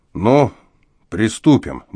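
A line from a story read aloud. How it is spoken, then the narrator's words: Grim. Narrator (Russian): мрачно проговорил он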